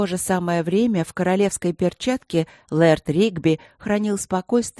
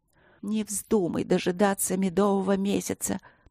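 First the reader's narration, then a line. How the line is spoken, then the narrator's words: Moaning. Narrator (Russian): простонало ее величество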